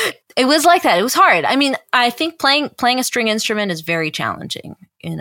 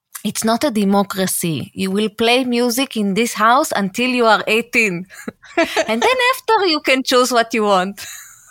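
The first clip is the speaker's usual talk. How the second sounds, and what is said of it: Imitating mother's accent. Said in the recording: “I'll do it with her accent.”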